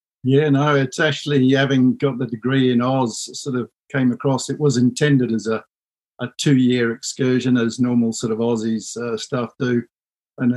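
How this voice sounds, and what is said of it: Australian accent. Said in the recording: “that's not an Anglo-Saxon accent ... Brisbane boy”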